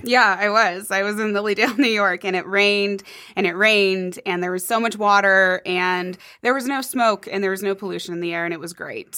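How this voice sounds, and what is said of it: Scratchy, strained voice. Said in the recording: “my voice is struggling today ... sorry about my scratchy voice”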